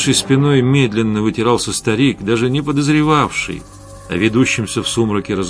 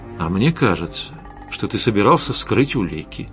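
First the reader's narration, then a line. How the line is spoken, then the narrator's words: Quiet, menacing. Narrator (Russian): тихо, но угрожающе произнес Костя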